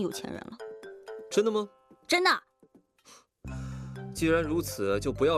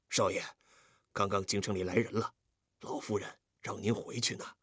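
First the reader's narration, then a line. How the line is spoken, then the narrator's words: Low voice. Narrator (Chinese): 福叔低声说道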